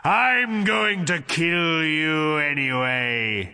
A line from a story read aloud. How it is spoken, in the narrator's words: he roared